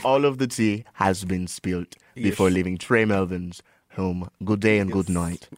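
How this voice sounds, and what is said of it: Put-on shifting accent, French then British. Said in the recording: “I don't know what accent that is. ... It sounded like you were from Wakanda for a little bit. ... Like you were transitioning into that. It was like French ... little bit. ... And now it's British.”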